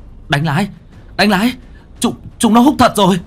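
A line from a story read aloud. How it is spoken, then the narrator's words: Shout. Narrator (Vietnamese): có tiếng hét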